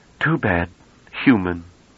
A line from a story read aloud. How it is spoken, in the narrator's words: he said in a disappointed voice